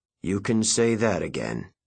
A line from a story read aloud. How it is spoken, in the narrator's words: he said dryly